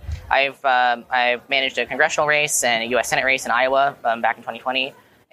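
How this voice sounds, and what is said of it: Hoarse voice. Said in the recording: “my voice is getting hoarse from talking so much”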